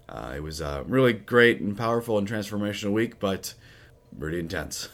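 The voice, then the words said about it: Raspy, hoarse voice. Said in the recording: “I, think part of my raspy voice is still uh, kind of recovering from the week”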